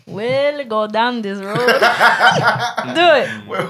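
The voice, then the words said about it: Put-on Jamaican accent while singing. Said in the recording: “he should have a Jamaican accent ... why you sound like Sebastian?”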